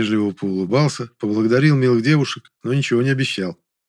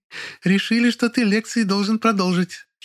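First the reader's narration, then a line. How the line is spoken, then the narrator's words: Giggling. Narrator (Russian): хихикнула Кареглазка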